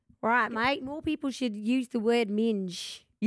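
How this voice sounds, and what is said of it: Attempted Australian outback accent. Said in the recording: “Australia... I'm not doing an Australian accent... Yours is kind of a bit like outback it.”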